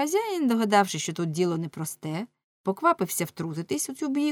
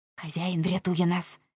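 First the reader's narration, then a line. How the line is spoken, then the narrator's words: Whispered in ear. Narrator (Ukrainian): шепнув Оленшпігель на вухо лами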